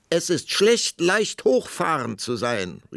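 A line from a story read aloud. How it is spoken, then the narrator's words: Queen's defiant parting call. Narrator (German): rief die Königin ihm nach, denn sie war entschlossen, das letzte Wort zu behalten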